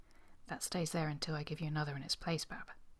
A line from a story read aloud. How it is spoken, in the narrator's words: the colonel saying quietly